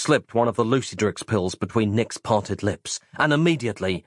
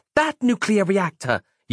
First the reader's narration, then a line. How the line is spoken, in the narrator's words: yelled Roz